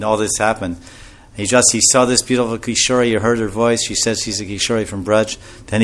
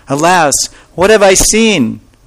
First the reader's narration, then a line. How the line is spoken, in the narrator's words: he cried with great joy